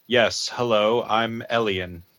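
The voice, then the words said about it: Bland nondescript put-on voice. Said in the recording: “adopted the form of the most nondescript human being possible ... clear my accent.”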